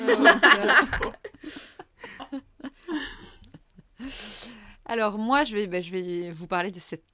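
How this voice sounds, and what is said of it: Usual voice. Nothing is said of it.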